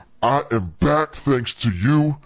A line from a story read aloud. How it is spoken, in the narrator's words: the dummy growled